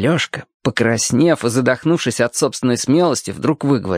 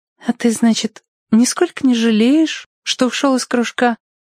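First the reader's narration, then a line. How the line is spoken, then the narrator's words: Soft sighing question. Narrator (Russian): вздохнула и спросила тихонько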